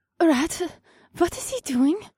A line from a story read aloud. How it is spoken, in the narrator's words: Cass asked, and her voice was high-pitched with concern